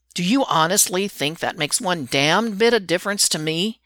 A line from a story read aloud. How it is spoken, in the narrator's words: Derek snarls at him